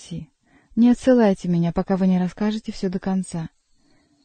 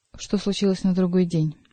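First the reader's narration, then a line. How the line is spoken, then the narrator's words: Plain. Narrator (Russian): спросил Бюсси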